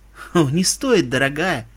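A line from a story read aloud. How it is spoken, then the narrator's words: Good-natured laugh. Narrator (Russian): Добродушно рассмеялась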